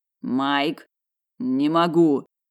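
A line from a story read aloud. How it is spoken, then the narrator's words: Muffled, dull voice. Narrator (Russian): глухо произнес саванный лис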